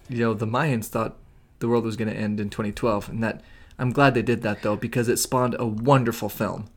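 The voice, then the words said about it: Sarcastic delivery. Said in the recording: “That was sarcasm.”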